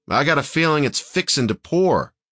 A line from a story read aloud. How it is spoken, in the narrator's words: Ian shouted